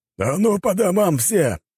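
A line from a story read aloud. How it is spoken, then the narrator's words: Barked by a fighter. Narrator (Russian): рявкнул один из группы бойцов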